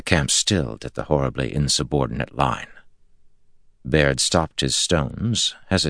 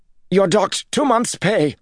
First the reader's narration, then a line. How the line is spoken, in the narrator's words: Jared snapped, but his voice trembled